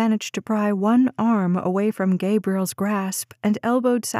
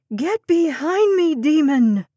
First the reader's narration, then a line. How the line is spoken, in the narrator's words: Sapphire screamed